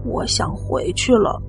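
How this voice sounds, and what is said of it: Quiet, hushed voice. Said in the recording (Chinese): “小声的跟我说”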